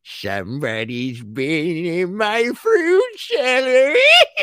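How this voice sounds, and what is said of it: Henrietta from Evil Dead impression. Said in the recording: “my Henrietta impression”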